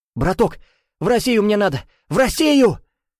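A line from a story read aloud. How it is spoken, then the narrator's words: Screaming at top of lungs. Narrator (Russian): Разрывая легкие, завопил Чернопятов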